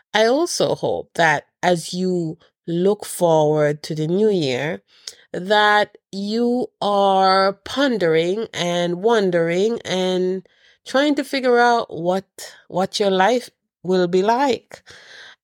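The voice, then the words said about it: Nasal, congested voice. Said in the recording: “sorry about my voice. I'm a bit nasally because I'm just getting over a cold.”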